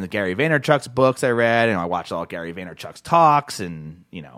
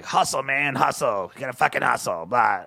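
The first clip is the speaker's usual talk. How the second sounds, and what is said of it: Imitates another person's voice. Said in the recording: “I'm not a good impressionist, but that's my Gary Vaynerchuk impression.”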